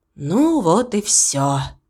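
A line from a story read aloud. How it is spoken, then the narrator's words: Sighing. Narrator (Russian): вздохнул Виктор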